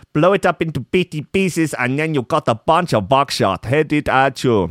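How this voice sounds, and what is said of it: Confusing put-on accent. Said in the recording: “in a very confusing accent ... It's a deeply problematic accent”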